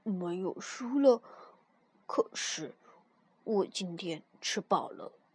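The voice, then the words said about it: Quiet, soft-spoken line. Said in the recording (Chinese): “小声地说”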